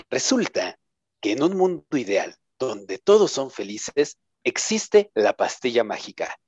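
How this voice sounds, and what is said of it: Radio announcer voice. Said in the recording (Spanish): “comenzaré a hablar con mi voz de locutor.”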